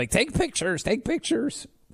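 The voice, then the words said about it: Imitates another person's voice. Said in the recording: “That's my impression of Producer Allie.”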